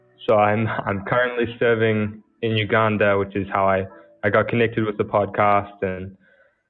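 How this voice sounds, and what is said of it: New Zealand accent. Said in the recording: “I'm from New Zealand, which is why you may be finding it difficult to understand my accent.”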